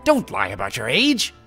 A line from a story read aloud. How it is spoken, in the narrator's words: Kotake snapped at her